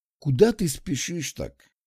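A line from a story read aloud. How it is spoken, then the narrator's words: Condescending sigh. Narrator (Russian): Вздохнул с таким видом, будто глаголю непрописные истины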